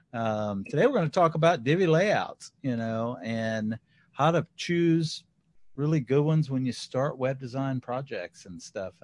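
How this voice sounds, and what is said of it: Slightly hoarse voice. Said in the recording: “I feel like I'm losing my voice, so if I'm sounding a little hoarse-ish”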